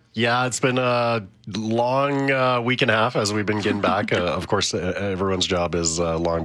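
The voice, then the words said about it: Gravelly, tired-sounding voice. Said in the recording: “My voice is a little bit more gravelly than usual.”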